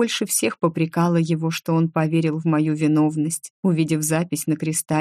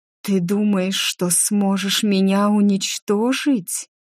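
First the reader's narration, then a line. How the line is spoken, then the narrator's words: Bitter mocking hiss. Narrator (Russian): Шипение было горьким и насмешливым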